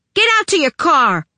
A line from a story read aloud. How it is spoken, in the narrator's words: she screeched at Tabby